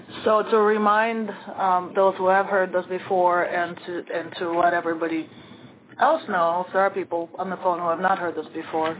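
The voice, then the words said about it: Strained, fading sick voice. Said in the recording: “I am sick ... my voice is going a little bit. But hopefully you can hear well enough”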